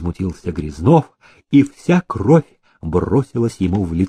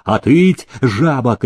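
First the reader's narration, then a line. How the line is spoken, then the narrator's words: Boar-keeper's shout. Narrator (Russian): крикнул кабанщик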